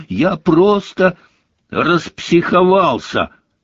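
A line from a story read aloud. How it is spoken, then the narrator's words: Angry. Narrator (Russian): сердито закончила Джинни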